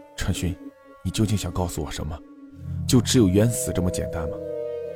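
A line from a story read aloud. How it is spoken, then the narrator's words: Murmuring to oneself. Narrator (Chinese): 不仅喃喃自语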